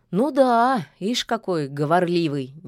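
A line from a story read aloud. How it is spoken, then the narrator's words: Displeased grumble, forest spirit. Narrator (Russian): недовольно пробурчал леший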